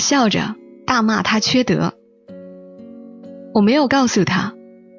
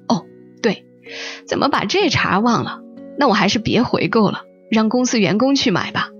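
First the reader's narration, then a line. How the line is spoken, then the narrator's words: Laughing heartily. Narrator (Chinese): 他哈哈笑说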